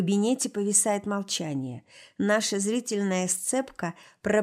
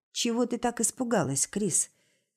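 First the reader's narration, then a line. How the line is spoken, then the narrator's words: Deceptively quiet calm question. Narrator (Russian): спрашивает обманчиво тихим и спокойным тоном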